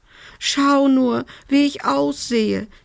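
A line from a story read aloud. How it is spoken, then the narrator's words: Whining complaint. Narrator (German): jammerte sie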